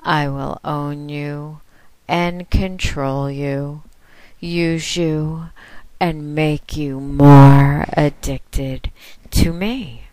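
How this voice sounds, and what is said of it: Soft, sensual voice. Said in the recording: “my soft, sexy voice”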